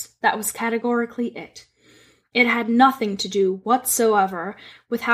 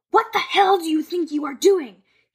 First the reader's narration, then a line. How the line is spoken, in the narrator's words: he yelled